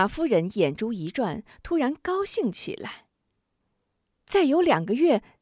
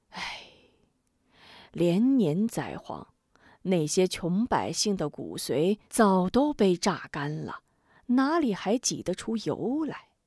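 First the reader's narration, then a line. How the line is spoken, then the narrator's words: Sighing. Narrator (Chinese): 贾怀叹口气道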